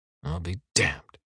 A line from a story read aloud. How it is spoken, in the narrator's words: he mumbles